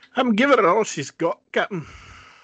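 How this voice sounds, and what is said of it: Put-on Scottish accent. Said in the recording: “It's about the best Scottish accent you're going to get out of me.”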